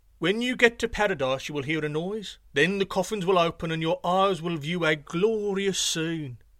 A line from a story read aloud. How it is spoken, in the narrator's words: He called out